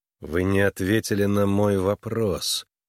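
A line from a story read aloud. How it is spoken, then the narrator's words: Through gritted teeth. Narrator (Russian): процедил сквозь зубы Харлан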